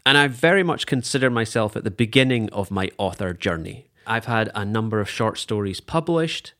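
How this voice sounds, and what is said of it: Scottish accent. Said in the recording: “this is a Scottish accent”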